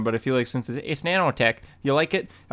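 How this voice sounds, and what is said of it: Poor imitation of another person's voice. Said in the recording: “terrible Tony Stark impression”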